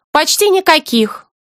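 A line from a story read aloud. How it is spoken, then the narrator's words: Cheerful reply. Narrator (Russian): бодро отвечает она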